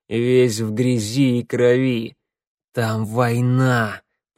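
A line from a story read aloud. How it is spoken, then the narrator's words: Growl. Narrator (Russian): прорычал Теодор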